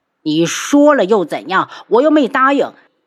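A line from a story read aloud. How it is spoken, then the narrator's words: Roaring. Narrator (Chinese): 帝凤华咆哮起来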